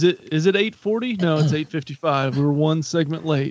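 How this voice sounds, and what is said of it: Usual voice. Nothing is said of it.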